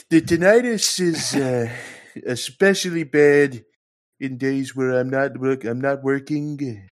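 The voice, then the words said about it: Imitates another person's voice. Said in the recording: “do a good impression of Trump saying tinnitus ... Gotta suck on the teeth when you talk, too.”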